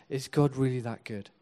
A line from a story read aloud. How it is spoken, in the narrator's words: The enemy wants to come and whisper